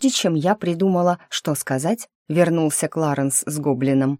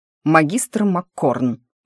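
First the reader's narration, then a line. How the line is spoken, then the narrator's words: Stern scolding growl. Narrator (Russian): рыкнул Кларенс тоном воспитателя гимназии, заставшего учеников за перелезанием забора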